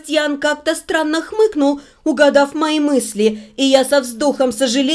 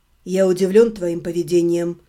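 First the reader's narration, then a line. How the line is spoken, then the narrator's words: Calm. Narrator (Russian): спокойно произнес Себастьян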